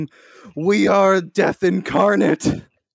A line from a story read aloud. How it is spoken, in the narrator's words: I turn to Lieutenant Tardigrade and just scream